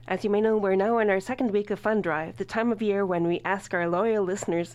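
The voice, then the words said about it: Scratchy voice. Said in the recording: “my voice is a little bit scratchy ... my voice is a bit scratchy at the moment ... the state of my vocal cords and throat”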